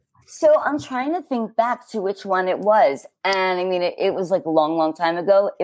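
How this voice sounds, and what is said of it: New York accent. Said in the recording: “I've seen them in New York because that's where I'm from. ... And in case the accent didn't give it away. Which well, I worked very hard to try to get rid of”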